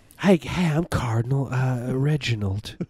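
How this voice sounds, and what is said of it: Fey exaggerated southern accent. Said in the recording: “Cardinals always have like a fey southern accent ... They're extremely in southern ... Really fey.”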